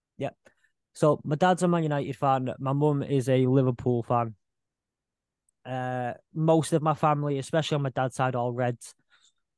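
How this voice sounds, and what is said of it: Manchester accent. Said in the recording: “You've got the Manchester accent”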